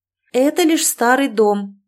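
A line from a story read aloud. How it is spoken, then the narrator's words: Loud, to oneself. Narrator (Russian): громко сказала я себе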